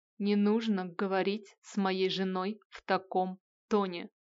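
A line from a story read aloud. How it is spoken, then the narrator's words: Demon's menacing growl. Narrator (Russian): угрожающе прорычал демон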